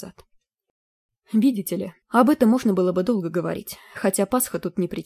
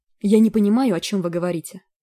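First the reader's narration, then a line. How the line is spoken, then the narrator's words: Irritated. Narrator (Russian): раздраженно произнесла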